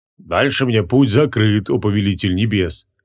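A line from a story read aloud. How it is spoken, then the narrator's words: Guilty booming rumble. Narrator (Russian): Виновато прогудел Кутруб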